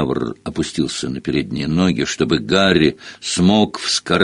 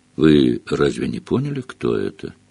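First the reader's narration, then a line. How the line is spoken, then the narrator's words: Calm question. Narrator (Russian): спокойно спросил Фиранс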